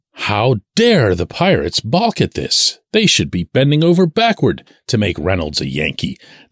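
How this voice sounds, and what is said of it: Annoyed, exasperated tone. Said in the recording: “as you can tell by my tone here, I find it really, really annoying”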